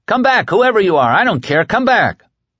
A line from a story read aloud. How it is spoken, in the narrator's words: felt a sudden mad urge to shout